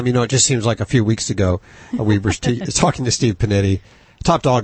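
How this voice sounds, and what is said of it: Hoarse, strained voice. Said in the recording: “I'm losing my voice. ... Screaming.”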